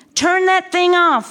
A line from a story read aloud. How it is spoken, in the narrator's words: Mom yelled